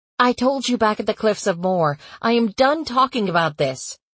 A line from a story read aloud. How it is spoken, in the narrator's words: I snapped